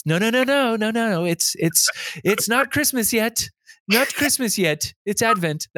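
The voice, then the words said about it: Poor put-on Anglican-style accent. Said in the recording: “That was a terrible accent. ... Be your Anglican.”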